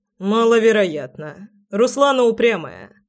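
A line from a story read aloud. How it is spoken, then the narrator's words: Skeptical grunt. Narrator (Russian): хмыкнул Громов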